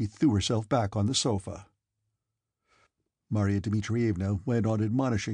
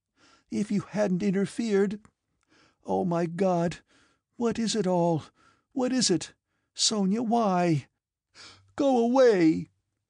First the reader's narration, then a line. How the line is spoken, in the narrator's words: she burst into sobs with the despairing vehemence with which people bewail disasters they feel they have themselves occasioned